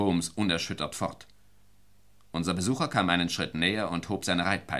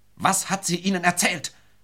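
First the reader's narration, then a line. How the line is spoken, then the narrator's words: Old man shouting, unrestrained. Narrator (German): schrie der alte Mann unbeherrscht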